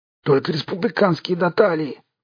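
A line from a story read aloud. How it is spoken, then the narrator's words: Hoarse rasp. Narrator (Russian): прохрипел лейтенант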